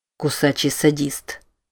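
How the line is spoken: Quiet, muttering to himself. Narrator (Russian): тихо произнес Билл, как будто разговаривая сам с собой

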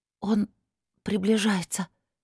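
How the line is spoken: Frightened girl's whisper. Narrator (Russian): испуганно прошептала девушка

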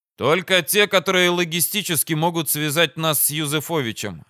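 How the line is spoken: Plain. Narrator (Russian): ответил я

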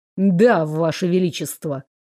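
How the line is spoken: Through gritted teeth. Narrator (Russian): процедил Дэниэль

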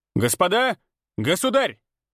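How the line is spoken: Barked. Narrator (Russian): рявкнул князь Кочубей

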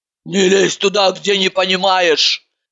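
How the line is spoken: Sharp bark. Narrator (Russian): рявкнула очнувшаяся от лекции Иванова

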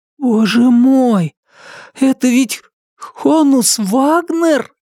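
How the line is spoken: Breathless awe. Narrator (Russian): выдохнул Брайан

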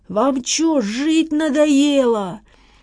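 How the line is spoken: Driver roaring. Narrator (Russian): проревел шофер

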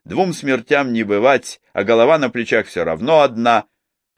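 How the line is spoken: Dreamy exclamation. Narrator (Russian): мечтательно воскликнул

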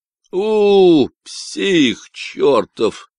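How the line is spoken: Grumbling. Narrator (Russian): проворчал Брэнсон

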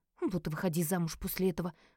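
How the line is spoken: Muttered under breath. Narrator (Russian): пробурчала себе под нос

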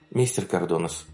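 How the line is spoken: Quiet call. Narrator (Russian): позвала она тихо

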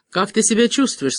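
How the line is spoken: Plain question. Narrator (Russian): спросил

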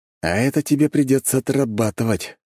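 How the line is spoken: Snorting. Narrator (Russian): хмыкнул я

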